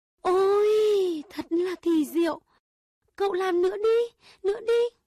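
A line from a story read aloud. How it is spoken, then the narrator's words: Delighted exclamation. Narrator (Vietnamese): Công chúa kêu lên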